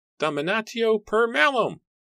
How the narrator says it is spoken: Matthew called out

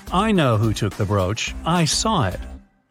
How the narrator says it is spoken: Anderson calmly said

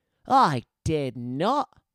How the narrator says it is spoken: snapped

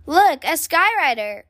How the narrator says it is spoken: cried Sister

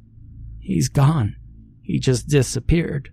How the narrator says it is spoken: said through her now heavy sobbing

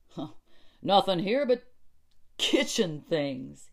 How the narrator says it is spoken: he said, with a little laugh for the insignificance of kitchen things

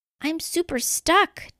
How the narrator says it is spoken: DJ Catnip cried

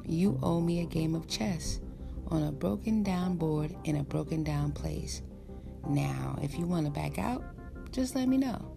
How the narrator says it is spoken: he said calmly

